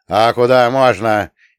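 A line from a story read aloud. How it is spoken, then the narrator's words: Sudden rude yell. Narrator (Russian): неожиданно грубо заорала Гребешкова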